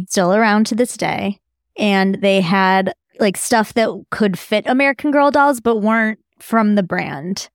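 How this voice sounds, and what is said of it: Midwestern American drawl. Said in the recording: “my delightful Midwestern drawl that comes out once in a while”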